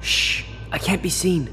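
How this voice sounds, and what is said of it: Whispering. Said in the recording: “Why are you whispering? You know I can't hear you properly if you're whispering.”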